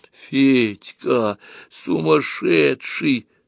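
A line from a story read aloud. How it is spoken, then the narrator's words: Barely audible drawl. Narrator (Russian): протянула чуть слышно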